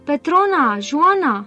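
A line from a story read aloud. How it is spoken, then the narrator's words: Calling out. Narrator (Romanian): a strigat Alvin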